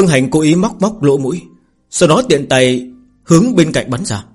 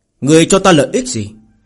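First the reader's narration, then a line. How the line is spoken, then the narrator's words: Sudden cold laugh. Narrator (Vietnamese): bỗng nhiên lạnh lùng cười một tiếng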